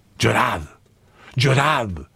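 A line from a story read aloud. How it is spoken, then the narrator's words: Whimpering, dying voice. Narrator (Spanish): llorisqueaba con voz expirante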